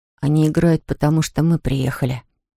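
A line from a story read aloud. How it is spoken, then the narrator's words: Child's whisper. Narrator (Russian): шепнул малыш Щепкину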